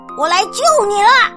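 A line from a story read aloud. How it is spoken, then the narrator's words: Shouting. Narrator (Chinese): 蟾蜍大叫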